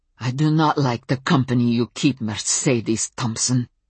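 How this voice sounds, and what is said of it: Thick foreign accent. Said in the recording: “her accent thick”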